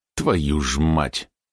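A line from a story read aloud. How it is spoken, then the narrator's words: Angry exhale. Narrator (Russian): зло выдохнул Маренин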